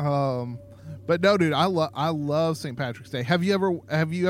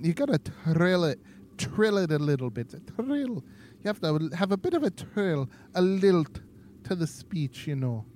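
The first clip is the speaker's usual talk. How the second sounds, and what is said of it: Attempted Irish accent, not awful. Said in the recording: “Let me try. See if you do an Irish accent ... That wasn't awful. That was not awful.”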